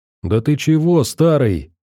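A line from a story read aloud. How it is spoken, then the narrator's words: Mock-indignant exclamation. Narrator (Russian): воскликнул он, изображая негодование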